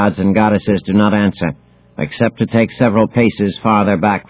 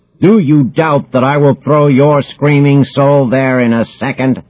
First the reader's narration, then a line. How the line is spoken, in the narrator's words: roars Zeus